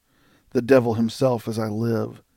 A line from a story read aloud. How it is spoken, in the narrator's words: said Buffalo Bill